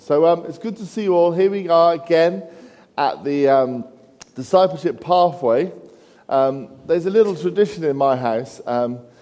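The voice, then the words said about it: Sore-throated, softly spoken voice. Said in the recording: “I've got a bit of a sore throat, so I'll try and just speak a bit softer with the microphone”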